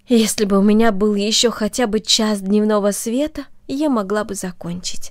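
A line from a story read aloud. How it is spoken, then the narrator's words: Sighing. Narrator (Russian): вздохнула она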